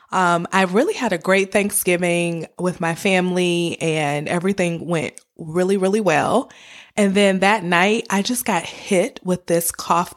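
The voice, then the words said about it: Hoarse, sick-sounding voice. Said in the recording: “my voice sounds a little crazy. Well, that's because I have a cold. ... I'm battling a cough, a sore throat”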